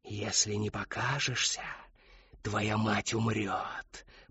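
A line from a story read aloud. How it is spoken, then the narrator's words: Whisper. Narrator (Russian): прошептала Шептунья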